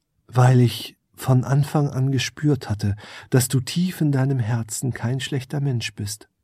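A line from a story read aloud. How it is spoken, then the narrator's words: Plain. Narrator (German): antwortete die Elfe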